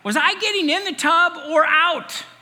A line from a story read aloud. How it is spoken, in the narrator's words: she yelled